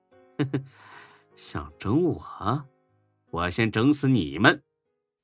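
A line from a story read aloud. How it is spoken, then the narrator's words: Smug laugh. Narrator (Chinese): 孙志得意的笑了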